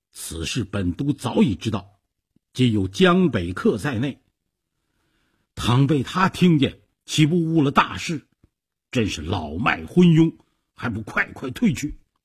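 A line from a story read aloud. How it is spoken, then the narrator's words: Angry. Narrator (Chinese): 周瑜怒道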